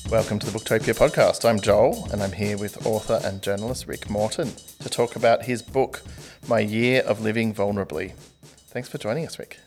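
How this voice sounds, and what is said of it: Calm, soothing podcast voice. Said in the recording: “That's a very calming voice you've got on at the moment... It's my podcast voice... I can't maintain it for very long”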